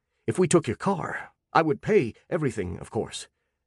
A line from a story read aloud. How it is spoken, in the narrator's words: he added hastily